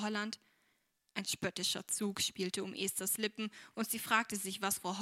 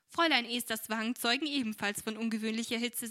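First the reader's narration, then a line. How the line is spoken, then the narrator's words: Laughing. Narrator (German): sagte Frau Brookley lachend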